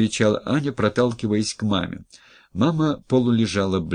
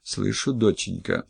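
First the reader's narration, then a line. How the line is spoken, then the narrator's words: Quiet reply. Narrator (Russian): тихо откликнулась Валентина Ивановна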